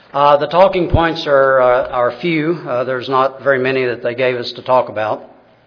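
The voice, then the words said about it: Kentucky accent. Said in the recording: “my abridged Kentucky accent ... made fun of about this accent”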